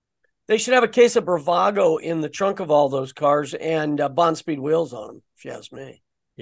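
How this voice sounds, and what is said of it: Strained, fading hoarse voice. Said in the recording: “I'm losing my voice. ... slowly whittling away.”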